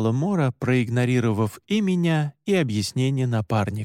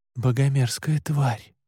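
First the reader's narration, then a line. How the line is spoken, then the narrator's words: Muttered. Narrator (Russian): пробормотал я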